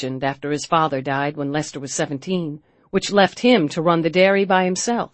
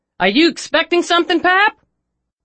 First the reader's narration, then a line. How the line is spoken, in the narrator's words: Henry called out